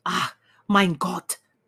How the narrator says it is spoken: she cried

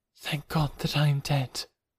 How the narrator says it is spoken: she murmured

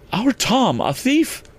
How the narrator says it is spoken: cried

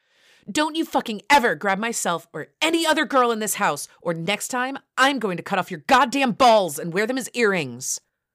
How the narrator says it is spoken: she spat in my face

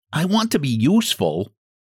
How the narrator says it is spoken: Jimmy Scarecrow said anxiously

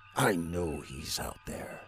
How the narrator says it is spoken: mumbled the general

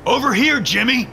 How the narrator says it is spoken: shouted

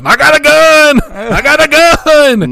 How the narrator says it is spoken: start shouting

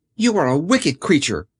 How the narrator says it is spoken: cried Dorothy

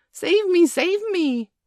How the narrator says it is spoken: cried Nibs, falling onto the ground

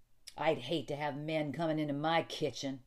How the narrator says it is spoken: she said testily

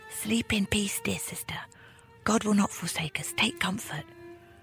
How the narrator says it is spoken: whispered to his sleeping sister

